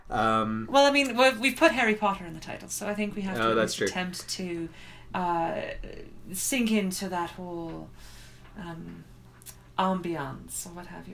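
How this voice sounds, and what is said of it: Posh English accent, not great. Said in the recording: “I know it's not the best English accent in the world, but I think I'm going to do the rest of the podcast in this accent ... We're now the posh upper crust podcast.”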